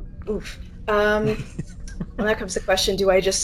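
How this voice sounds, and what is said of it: Usual voice. Nothing is said of it.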